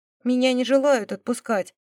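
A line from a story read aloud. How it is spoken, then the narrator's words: Offended declaration. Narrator (Russian): обиженным тоном заявила она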